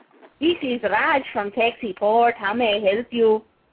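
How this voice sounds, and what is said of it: Put-on Mexican-Chinese accent, Speedy Gonzalez-like. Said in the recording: “You did a Mexican-Chinese accent? ... that was almost Speedy Gonzalez, but not.”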